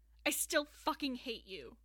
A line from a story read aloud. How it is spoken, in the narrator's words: Aaron snapped